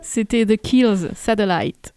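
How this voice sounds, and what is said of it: Put-on English accent. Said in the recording (French): “avec l'accent.”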